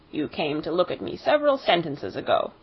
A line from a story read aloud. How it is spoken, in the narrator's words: it said crossly